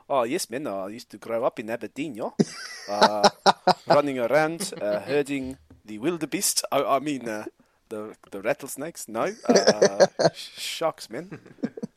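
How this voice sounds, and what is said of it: Poor put-on South African accent. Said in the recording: “the most South African name ... Please say Aberdeen in that accent ... Awful.”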